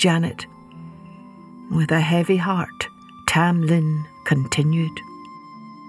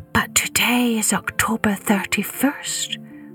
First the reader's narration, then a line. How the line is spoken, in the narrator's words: whispered Janet